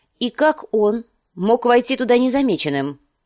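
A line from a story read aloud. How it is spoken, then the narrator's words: Sharp question. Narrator (Russian): спросила Кейтилин резким тоном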